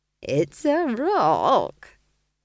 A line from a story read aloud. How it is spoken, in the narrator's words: chuckled Nanny Ogg